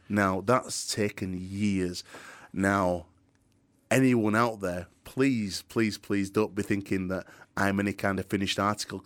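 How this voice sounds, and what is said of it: Light Yorkshire accent. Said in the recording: “I've got a very thick Yorkshire accent. I'm a proper Yorkshire lad... I like to keep a bit of my Yorkshire accent”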